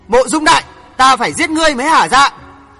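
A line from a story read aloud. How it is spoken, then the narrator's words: Shouting. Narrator (Vietnamese): Hoàng Thượng Chí hét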